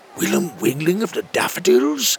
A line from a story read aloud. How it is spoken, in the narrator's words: gasped another